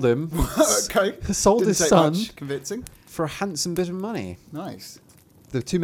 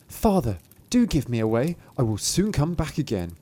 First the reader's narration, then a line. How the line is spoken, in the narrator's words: Thumbling whispered